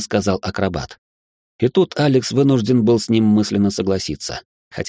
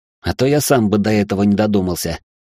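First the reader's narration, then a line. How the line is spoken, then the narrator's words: Irritated snap. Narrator (Russian): недовольно огрызнулся Алекс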